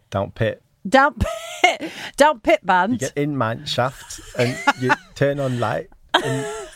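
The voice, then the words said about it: Put-on Yorkshire accent. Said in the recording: “I was doing Yorkshire.”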